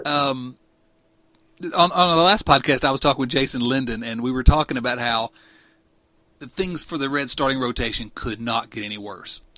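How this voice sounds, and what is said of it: Rustic hillbilly-style country accent. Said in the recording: “this ridiculous accent ... Georgetown meets Hooterville ... The Clampets come to the big city.”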